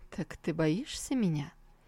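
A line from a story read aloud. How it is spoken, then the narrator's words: Soft question. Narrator (Russian): мягко спросил его человек на троне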